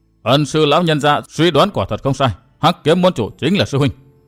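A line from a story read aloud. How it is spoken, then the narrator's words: Cold. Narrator (Vietnamese): Cao Không Nhạn lạnh lùng nói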